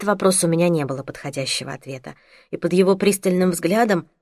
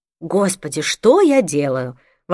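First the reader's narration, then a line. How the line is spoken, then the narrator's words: Exclamation. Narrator (Russian): воскликнула я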